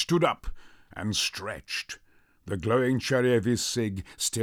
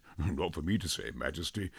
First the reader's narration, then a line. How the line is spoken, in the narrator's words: Louis chuckled